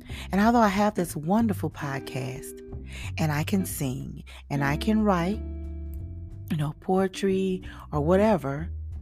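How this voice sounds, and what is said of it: Slight country twang. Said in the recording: “with a little country twang”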